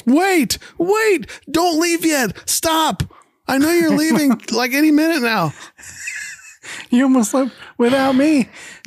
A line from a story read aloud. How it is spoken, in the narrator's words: Gilligan does a double take and then runs back to the minnow as he yells